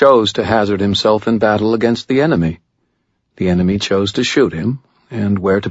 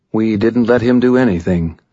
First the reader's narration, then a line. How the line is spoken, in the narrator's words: Jake replied calmly